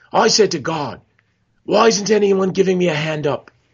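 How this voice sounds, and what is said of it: Poor put-on Australian accent. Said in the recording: “This is my horrible Australian accent ... It's horrible, isn't it? Is that Scottish all of a sudden?”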